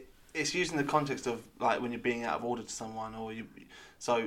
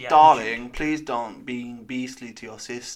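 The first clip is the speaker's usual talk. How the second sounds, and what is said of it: Poor attempt at posh accent. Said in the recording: “I don't know what accent that was absolutely ... I can't do accents ... Posh from Cardiff”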